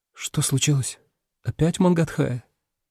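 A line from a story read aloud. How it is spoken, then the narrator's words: Quiet. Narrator (Russian): проговорил тихо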